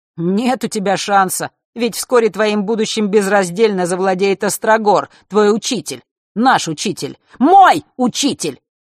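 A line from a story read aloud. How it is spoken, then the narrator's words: Sudden shout. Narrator (Russian): вдруг выкрикнул он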